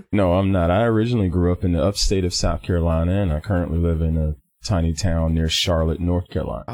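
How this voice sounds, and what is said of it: Southern American accent. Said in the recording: “I have this wonderful Southern accent”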